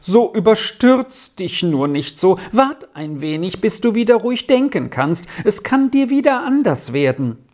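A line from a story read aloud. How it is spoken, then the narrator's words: Whining lament. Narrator (German): jammerte Marianne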